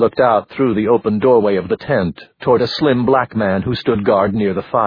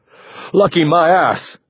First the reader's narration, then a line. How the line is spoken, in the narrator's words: Alim shouted